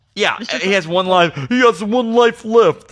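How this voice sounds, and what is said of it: Imitates another person's voice. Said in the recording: “my Christopher Walken impression.”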